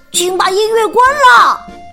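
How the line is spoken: Shouting. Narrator (Chinese): 阿蒙大喊

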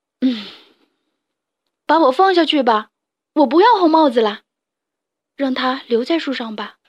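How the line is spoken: Sad sighing shout. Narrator (Chinese): 达尼深深的叹了三口气，伤心的朝树下喊

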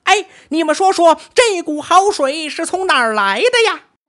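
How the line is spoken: Repeated calling out. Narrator (Chinese): 一个通背猿猴喊连声

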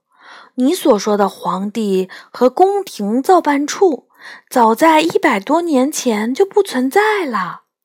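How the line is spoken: Low voice. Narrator (Chinese): 我低声说

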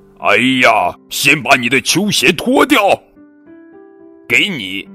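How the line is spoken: Father hollering from kitchen. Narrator (Chinese): 爸爸就在厨房里嚷嚷着

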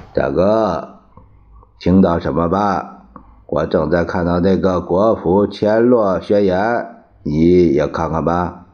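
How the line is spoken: Sighing. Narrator (Chinese): 蒋介石叹了一口气

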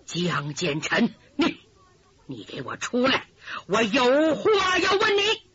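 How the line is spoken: Low, suppressed anger. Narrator (Chinese): 强压怒火，压低嗓音

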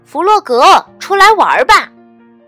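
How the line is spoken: Loud call. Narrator (Chinese): 他冲着弗洛格家的方向大声叫道

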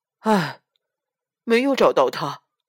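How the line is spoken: Sighing. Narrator (Chinese): 叹息道

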